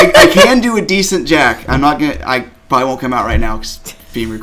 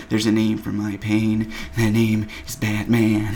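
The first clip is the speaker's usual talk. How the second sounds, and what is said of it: Bad Jack Nicholson impression. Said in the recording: “bad Jack Nicholson impersonations ... That sounded more like Dan Crawford just doing his hover.”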